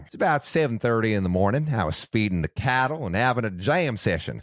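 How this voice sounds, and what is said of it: Slight country twang accent. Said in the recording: “I'm going to do a little little twinge ... of an Ooh, accent. A little twang.”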